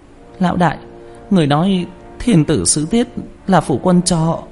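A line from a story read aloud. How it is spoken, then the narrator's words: Trembling. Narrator (Vietnamese): Quả Cam run rẩy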